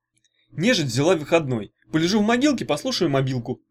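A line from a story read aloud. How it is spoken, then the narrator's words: Scoffing grunt. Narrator (Russian): хмыкнул Ягуни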